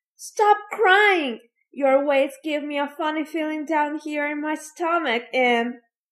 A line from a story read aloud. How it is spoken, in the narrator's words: After sneezing, Fire Eater, ugly as ever, cried to Pinocchio